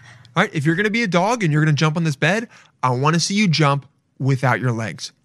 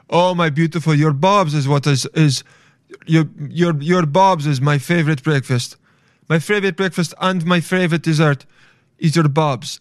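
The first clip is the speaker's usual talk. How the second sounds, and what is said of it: Put-on generic accent. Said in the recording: “I'm doing an accent that is not anyone so as not to single someone out.”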